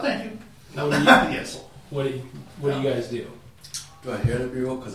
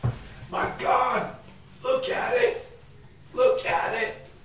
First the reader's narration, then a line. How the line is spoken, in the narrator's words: you hear a man gasp